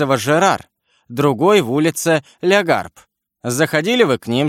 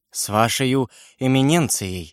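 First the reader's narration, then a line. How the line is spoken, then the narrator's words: Mumbling. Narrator (Russian): бормотал Бонасье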